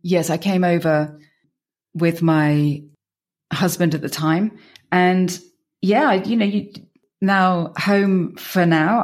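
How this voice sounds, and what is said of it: British English accent. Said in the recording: “You can tell by my accent... I'm British”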